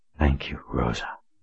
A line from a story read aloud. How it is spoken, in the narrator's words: whispered, truly meant it